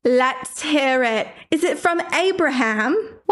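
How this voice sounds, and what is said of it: Put-on Sussex English accent. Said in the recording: “What accent are we doing today? ... This is my Sussex accent.”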